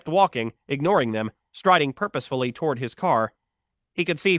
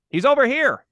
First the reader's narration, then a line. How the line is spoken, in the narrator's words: Mike shouted